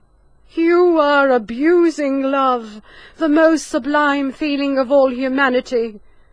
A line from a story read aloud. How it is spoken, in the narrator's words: she cried